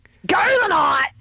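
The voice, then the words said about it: Shouting, strained throaty yell. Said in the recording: “you're screaming ... I can hear it in your throat like that real...”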